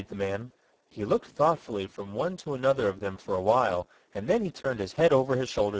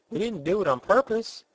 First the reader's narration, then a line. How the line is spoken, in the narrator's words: exclaimed Betsy